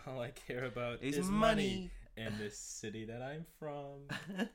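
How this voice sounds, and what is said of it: Theatrical Broadway-style imitation of a singer. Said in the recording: “All of his songs sound like they were recorded for Broadway ... They also did a really good impression ... you could imagine Drake as a character in a pantomime”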